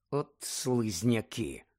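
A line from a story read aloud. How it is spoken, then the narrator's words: Muttered. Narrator (Ukrainian): пробурмотів Рон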